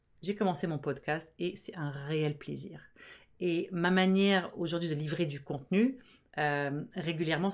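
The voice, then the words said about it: Fast speech, mixed Arabic-French-Canadian accent. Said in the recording (French): “Moi qui parle tellement vite, qui a un accent, arabo-franco-canado weirdo, là, on sait pas trop d'où vient mon accent”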